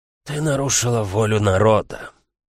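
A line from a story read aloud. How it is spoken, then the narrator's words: Muffled cracked father's voice. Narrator (Russian): Глухо и надтреснуто прозвучал голос отца Эланы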